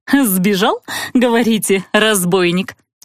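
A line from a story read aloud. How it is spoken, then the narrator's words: Giggling. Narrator (Russian): Хихикнула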